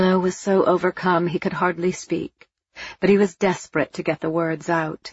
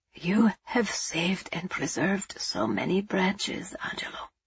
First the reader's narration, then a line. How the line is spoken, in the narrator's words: he said in a choked whisper